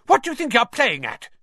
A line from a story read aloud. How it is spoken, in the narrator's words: he shouted